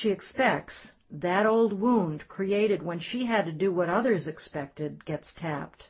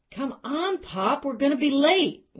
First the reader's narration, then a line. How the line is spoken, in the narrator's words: his daughter yell